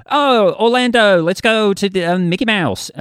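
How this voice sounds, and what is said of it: Put-on Florida American accent. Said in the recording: “I can do an American accent ... I could do like from Florida”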